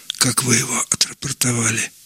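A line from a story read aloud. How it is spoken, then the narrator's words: Whispering. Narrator (Russian): обратилась шепотом хозяйка к Андрюше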